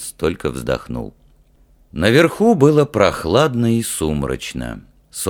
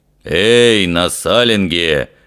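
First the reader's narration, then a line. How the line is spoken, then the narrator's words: Barked command. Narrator (Russian): рявкнул Фример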